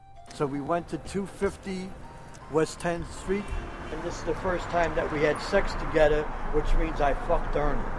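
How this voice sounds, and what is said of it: Working-class accent. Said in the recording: “he has the voice of a working stiff ... His accent,”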